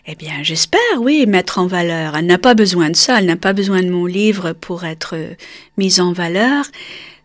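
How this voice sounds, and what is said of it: Slight foreign accent in French. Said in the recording (French): “un petit accent qui me colle encore”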